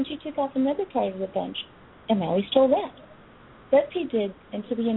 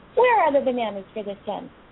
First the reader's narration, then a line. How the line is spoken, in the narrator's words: She was angry and cried out